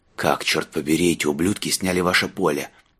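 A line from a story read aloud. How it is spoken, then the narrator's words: Hoarse wheeze. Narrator (Russian): прохрипел он вербе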